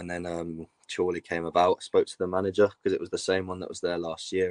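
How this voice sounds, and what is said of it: Strong northern English accent. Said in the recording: “you can tell you've got a massive northern accent.”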